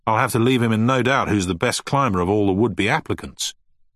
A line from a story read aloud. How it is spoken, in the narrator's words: snapped Finch